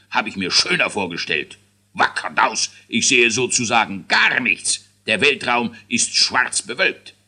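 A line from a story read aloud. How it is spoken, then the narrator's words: King grumbling. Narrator (German): brummte der König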